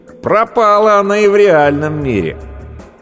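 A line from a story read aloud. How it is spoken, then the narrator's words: Sarcastic inner voice. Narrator (Russian): Внутренний голос ехидно говорит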